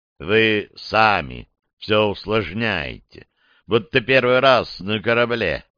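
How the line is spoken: Calm remark. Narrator (Russian): спокойно заметил Кэп

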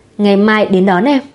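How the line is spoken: Faint dry smile. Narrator (Vietnamese): Kiều Lệ cười nhạt một cái

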